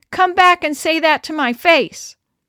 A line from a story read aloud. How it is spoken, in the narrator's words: shouting